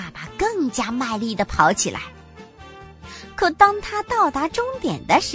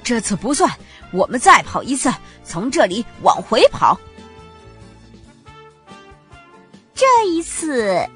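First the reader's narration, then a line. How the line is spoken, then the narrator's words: Breathless father panting. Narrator (Chinese): 兔爸爸气喘吁吁地说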